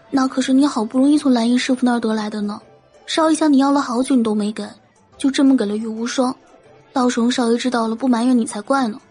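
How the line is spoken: Soft asking. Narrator (Chinese): 韩月轻声问云柯

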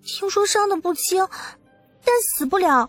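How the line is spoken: Trembling voice. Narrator (Chinese): 东阳颤声的问

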